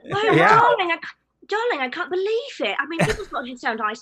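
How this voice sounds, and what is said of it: Put-on British accent. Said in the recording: “I'm just trying to sound British ... I thought that sounded pretty good, actually.”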